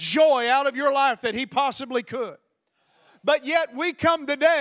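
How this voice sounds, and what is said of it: Usual voice. Nothing is said of it.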